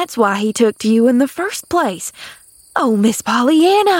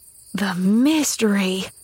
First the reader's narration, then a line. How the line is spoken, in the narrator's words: breathed Nancy in an awestruck voice